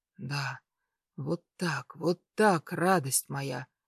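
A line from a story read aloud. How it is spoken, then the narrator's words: Hoarse moan. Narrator (Russian): хриплый стон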